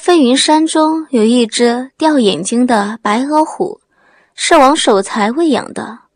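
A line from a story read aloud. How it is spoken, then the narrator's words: Lightly humorous. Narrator (Chinese): 刘波笑了，不再傻气，带着淡淡的幽默，说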